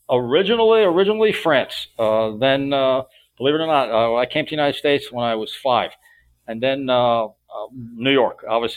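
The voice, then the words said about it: Slight New York accent. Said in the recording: “you could probably hear the New York in my accent ... there's a little bit”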